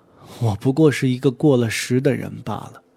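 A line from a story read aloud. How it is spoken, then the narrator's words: Soft sigh. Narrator (Chinese): 刘苏微微叹了口气道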